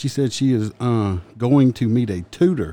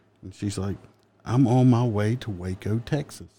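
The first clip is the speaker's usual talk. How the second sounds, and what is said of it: Put-on Southern accent. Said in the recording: “I do realize I said it differently... your southern. It's southern, just that, uh, that Waco, Texas... Southern accent.”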